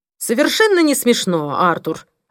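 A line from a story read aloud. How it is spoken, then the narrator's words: Irritated bark over phone. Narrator (Russian): раздраженно рявкнул в трубку Пол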